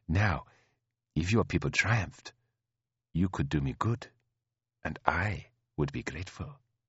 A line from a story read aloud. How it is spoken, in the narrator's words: said in a low tone